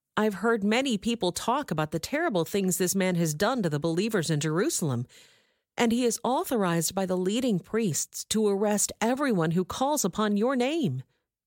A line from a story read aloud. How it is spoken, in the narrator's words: exclaimed Ananias